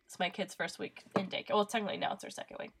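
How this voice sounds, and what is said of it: Congested, stuffy-nosed voice. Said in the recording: “I have a little bit of a cold. So I'm going to sound funny, and I'm probably going to sniffle.”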